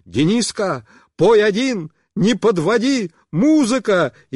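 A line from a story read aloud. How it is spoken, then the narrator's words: Shouting. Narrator (Russian): Она кричала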